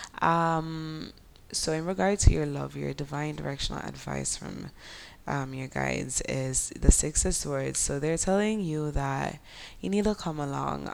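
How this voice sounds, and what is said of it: Sleepy Jamaican Creole accent. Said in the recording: “I want to sleep, so my Jamaican Creole accent is chipping in”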